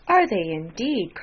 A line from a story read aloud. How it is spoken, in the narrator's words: cried Elizabeth, with great satisfaction